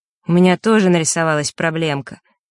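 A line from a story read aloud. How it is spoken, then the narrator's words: Deep sigh. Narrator (Russian): Лёшка глубоко вздохнул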